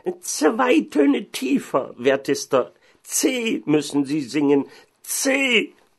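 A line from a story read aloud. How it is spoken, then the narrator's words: Shouting. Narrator (German): Der Organist aber schrie ihm zu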